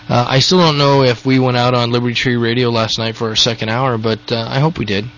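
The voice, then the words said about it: Weird-sounding voice. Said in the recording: “I had insomnia. That's why my voice sounds so weird. I was up all night long.”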